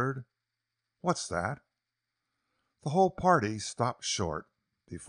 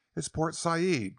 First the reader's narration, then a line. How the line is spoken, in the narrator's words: Quest exclaimed